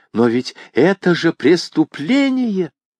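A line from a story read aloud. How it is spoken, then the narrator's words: Exclaiming. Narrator (Russian): воскликнула она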